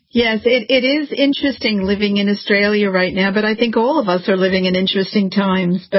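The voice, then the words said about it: American accent, not Australian. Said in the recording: “Meryl Dorey is originally from America. You'll hear by her accent. You'll say, hey, she doesn't sound Australian.”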